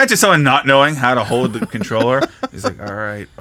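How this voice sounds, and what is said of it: Usual voice. Nothing is said of it.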